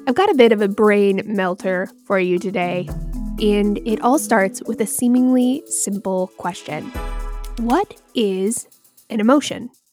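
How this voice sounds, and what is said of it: Voice sounds slightly off, unwell. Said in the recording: “if I sound a little weird today. I am still recovering from a mild case of breakthrough COVID”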